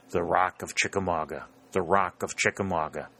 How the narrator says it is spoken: he repeated under his breath

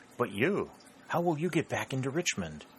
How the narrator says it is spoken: anxiously as she spoke

